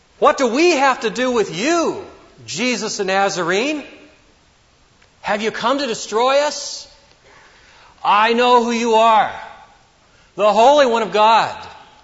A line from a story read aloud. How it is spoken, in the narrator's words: a man with an unclean spirit, and he cried out, saying